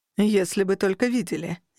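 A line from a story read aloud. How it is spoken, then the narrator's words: Sarcastic snort. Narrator (Russian): язвительно фыркнул Архан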